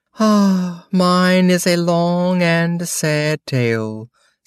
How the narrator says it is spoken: said the mouse, sighing

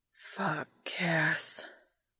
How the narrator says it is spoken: Dean moans

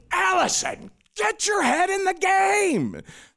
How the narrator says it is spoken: the other guys were always yelling at me

